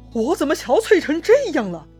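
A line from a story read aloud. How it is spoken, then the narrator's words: Startled shout. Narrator (Chinese): 也吓了一大跳，大喊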